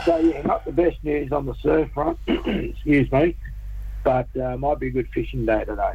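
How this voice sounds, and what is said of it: Croaky throat, needs clearing. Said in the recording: “I've got a frog in my throat”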